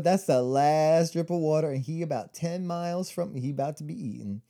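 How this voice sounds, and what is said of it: Sassy coyote character voice. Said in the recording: “I don't know what accent that was ... they're sassy. I like the sassy coyote ... That was a sassy coyote.”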